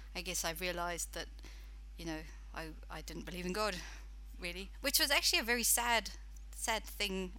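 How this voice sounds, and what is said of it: British accent. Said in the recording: “my accent, I'm actually British.”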